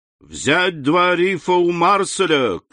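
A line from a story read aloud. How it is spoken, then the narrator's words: Shout. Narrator (Russian): крикнул капитан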